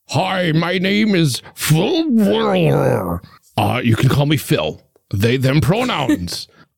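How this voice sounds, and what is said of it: Performs a character voice. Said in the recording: “did a character voice,”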